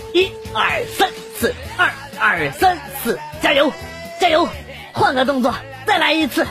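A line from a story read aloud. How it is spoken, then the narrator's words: Rhythmic shouting. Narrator (Chinese): 丈夫一边重复还一边在那块喊啊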